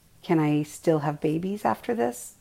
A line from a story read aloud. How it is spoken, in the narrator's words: asked